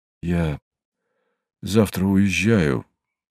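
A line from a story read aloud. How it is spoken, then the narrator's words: Sudden, muffled. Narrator (Russian): вдруг глухо произнес Ракелов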